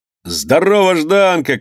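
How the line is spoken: Shouting from shore. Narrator (Russian): кричали ему с берега

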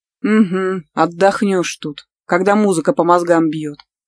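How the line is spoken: Grumbling. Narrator (Russian): проворчала Елена

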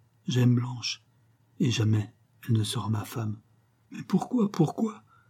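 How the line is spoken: Sobbing, broken voice. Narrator (French): dit Fabien d'une voix entrecoupée de sanglots

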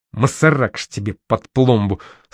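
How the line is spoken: Cursed through gritted teeth. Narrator (Russian): сквозь зубы выругался Абаленский

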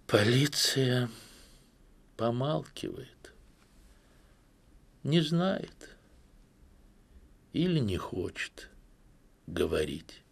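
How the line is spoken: Sad. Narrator (Russian): Тетя Анна грустно добавила

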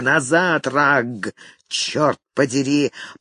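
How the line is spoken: Growl from darkness. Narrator (Russian): прорычал кто-то в темных синях

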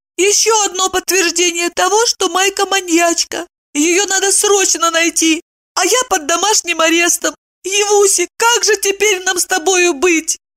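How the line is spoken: Sobbing. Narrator (Russian): всхлипнула Евдокия

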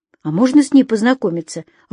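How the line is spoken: Timid speech. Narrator (Russian): робко сказала Женя

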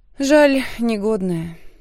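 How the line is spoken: Sigh. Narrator (Russian): вздохнула я

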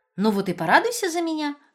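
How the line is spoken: Joyful chiming in. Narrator (Russian): радостно подхватила Иза

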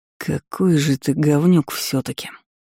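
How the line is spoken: Tired, habitual cursing. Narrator (Russian): Устало и как-то привычно выругался Ирден

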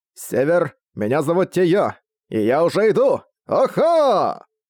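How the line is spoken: Dwarf shouting again. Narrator (Russian): Снова прокричал гном

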